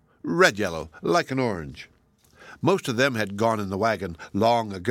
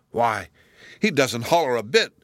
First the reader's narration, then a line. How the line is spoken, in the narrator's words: exclaimed Marmaduke